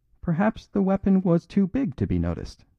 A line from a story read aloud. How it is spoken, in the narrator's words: said the priest, with an odd little giggle